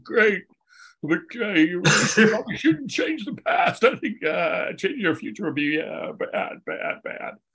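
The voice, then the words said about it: Imitates another person's voice. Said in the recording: “That's a pretty good impression. ... It's spot on.”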